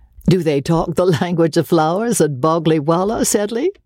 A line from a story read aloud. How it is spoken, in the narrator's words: asked Osborne, laughing